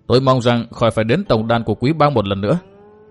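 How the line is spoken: Harsh, stressed voice. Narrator (Vietnamese): gằn giọng nói

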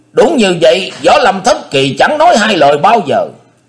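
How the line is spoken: Shouting. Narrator (Vietnamese): Tí Mà Thành Diện thét vàng

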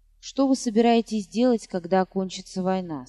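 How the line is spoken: Plain question. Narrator (Russian): спросил

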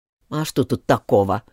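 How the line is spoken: Hatter muttering. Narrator (Russian): пробормотал болванщик

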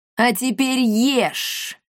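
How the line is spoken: Menacing. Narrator (Russian): грозно сказала Пиме Коптильда

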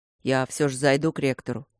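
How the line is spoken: Deep bass voice. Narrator (Russian): пробасил Матвей

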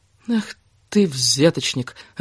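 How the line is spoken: Disappointed drawl. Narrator (Russian): разочарованно протянула Кира

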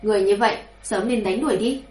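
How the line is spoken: Cold. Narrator (Vietnamese): Hàn Lâm lạnh lùng nói

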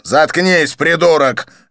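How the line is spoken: Barking. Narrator (Russian): рявкнул Канканан

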